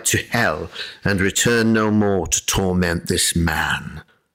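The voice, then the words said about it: Put-on British accent. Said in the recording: “Oh, I guess they're British. Okay, I'll have to do an accent.”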